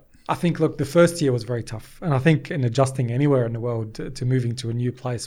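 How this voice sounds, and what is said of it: Australian accent. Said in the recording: “I've picked up the Australian accent ... Yeah, can definitely tell.”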